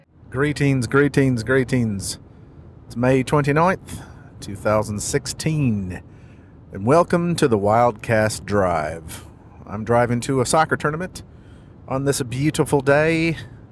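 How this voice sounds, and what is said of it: Speaks in a put-on accent. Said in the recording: “Not sure why I'm talking in this accent, but it's lovely, just lovely. Oh, I know why I'm talking in this accent.”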